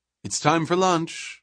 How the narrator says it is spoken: she said cheerfully

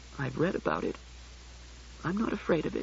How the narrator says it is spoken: she mumbled

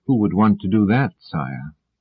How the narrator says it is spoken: asked Demoiselle softly

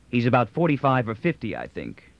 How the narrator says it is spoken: LeBlanc said

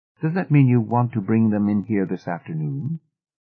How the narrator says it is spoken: Coolly, said

